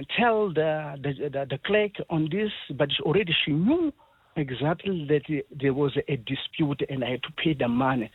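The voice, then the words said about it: Non-South African accent. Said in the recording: “I can hear from your accent that you are not South African.”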